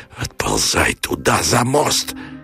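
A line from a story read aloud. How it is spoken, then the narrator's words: Fearful wheezing rasp. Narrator (Russian): Ожидая тупой и огненный удар смерти, он хрипел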